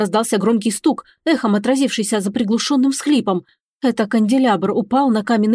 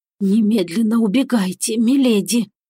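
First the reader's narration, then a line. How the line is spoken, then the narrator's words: Hoarse. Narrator (Russian): произнесла она сипло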